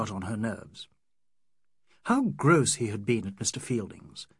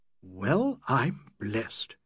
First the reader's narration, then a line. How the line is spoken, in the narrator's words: he murmured after a pause